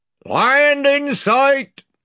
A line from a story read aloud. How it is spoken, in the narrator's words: shouted the man in the bows